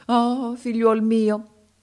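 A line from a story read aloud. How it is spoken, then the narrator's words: Sorcerer's exclamation. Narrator (Italian): esclamò il mago africano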